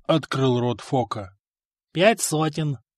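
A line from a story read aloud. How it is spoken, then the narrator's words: Calm reply. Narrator (Russian): спокойно ответил проигравшийся только что в пух и прах игрок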